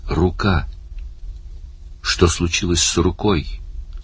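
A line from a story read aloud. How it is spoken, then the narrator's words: Weak voice question. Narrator (Russian): слабым голосом спросил Барни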